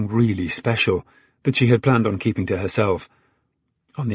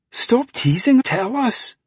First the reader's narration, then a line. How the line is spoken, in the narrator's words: Jimmy exclaimed